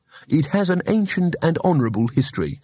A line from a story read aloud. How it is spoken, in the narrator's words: said Rincewind, his voice stiff with injured civic pride